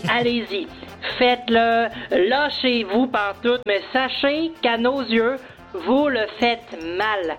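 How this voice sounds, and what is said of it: Québécois French accent. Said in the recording (French): “on parle de l'accent québécois. On a reçu un coup de fil avec un message d'une Québécoise”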